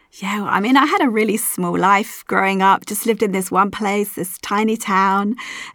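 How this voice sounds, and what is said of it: Non-local foreign accent. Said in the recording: “obviously you're not from around here. Your accent is kind of giving you away.”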